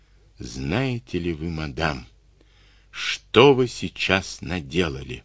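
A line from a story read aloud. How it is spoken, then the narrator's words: Quiet, sinister question. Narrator (Russian): Андрей спросил тихо и зловеще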